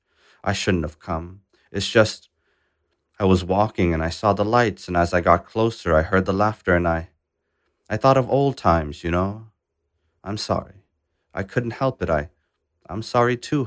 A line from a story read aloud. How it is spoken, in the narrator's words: Hotuk said